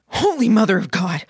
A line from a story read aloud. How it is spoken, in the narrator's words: Tattoo Belly gasped the words